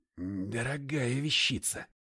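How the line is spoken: Muttering. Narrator (Russian): пробормотал я

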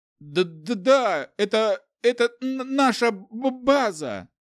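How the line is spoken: Frightened stuttering mumble. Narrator (Russian): Заикаясь от страха, промямлил удерживаемый Каем за волосы начальный священный лорд

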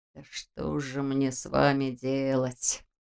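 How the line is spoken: Muttering. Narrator (Russian): пробормотал Нев

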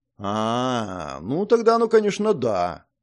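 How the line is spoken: Drawn out, thoughtful. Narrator (Russian): протянул я, задумавшись

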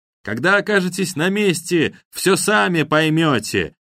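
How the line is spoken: Shouted. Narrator (Russian): прокричал ковбой

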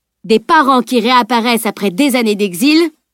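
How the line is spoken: Exclaiming. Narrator (French): s'exclama

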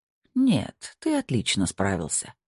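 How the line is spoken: Quiet reply. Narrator (Russian): тихо ответил Снейдер

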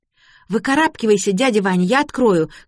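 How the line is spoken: Shout. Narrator (Russian): крикнула Лота

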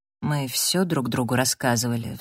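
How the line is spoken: Sighing. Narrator (Russian): вздохнул он

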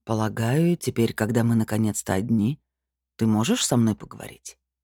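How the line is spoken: Calm. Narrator (Russian): Сая вслух спокойно сказала

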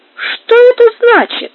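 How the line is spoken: Heated exclamation. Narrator (Russian): запальчиво воскликнул Альфонс

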